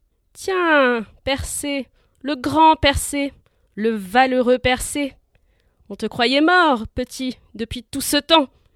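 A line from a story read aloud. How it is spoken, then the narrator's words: Sneering. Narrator (French): ricana-t-il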